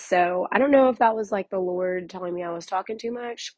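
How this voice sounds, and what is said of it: Hoarse, strained voice. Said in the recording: “my voice normally does not sound like this... recovering from losing my voice... Don't sound great.”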